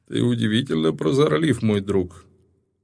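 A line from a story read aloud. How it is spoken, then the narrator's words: Laughing. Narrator (Russian): рассмеялся Нибматра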